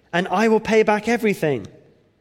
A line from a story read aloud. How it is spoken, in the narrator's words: he begged